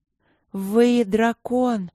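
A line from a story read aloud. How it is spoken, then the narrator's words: Breathless. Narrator (Russian): выдохнула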